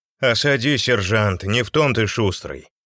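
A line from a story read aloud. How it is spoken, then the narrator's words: Grumbling. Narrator (Russian): проворчал Кольцов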